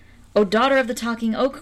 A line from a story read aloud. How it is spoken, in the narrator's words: cried he